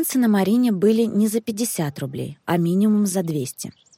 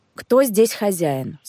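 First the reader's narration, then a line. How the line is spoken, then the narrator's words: Stern question. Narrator (Russian): спросил он строго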